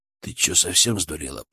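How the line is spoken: Hiss. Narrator (Russian): прошипел он

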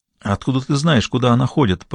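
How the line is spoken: Whisper. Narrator (Russian): прошептал другой официант

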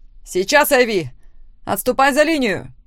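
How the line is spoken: Shouted. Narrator (Russian): крикнула Лора

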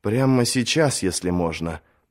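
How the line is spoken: Gently urging. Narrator (Russian): мягко поторопил принц

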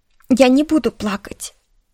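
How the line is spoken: Sobbing, then resolute. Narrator (Russian): всхлипнула и решительно повторила себе

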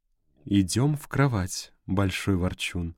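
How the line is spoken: Purring in ear. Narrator (Russian): промурлыкала она мне в ухо

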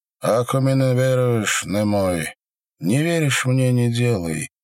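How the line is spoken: Yawning through teeth. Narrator (Russian): сказал Степан, бережно зевая сквозь зубы

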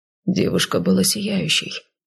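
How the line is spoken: Quiet. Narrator (Russian): негромко произнес Вэй

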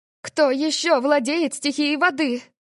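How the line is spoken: Panicked cry. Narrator (Russian): Маргарет в панике вскрикнула

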